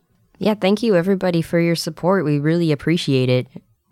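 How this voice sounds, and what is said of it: Raspy voice from a cold. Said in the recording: “I'm sick, and that's why I sound a little raspy.”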